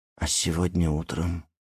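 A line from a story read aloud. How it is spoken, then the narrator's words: Very timid question. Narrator (Russian): очень робко спросила она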